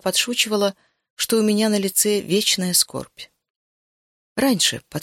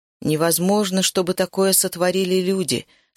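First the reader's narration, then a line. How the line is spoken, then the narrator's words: Plain. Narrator (Russian): сказал он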